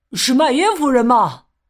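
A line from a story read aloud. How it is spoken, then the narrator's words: Loud question. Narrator (Chinese): 斯普林格先生大声问道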